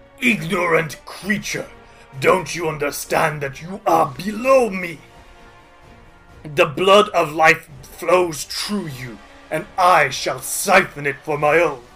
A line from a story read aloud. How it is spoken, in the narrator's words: he snarls and says